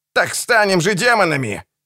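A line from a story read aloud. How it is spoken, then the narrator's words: Screaming. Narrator (Russian): завопил Генрих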